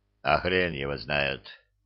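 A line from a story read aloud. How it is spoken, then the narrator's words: Grumbled mutter. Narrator (Russian): пробурчал, выглядевший ничуть не лучше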